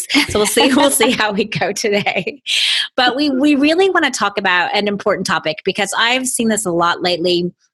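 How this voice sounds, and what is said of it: Low voice from being sick. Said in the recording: “a little bit of my, you know, sick and sexy voice. ... Lower voice.”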